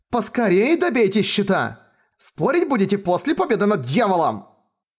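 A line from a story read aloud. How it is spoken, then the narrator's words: Angry shout. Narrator (Russian): крикнула сука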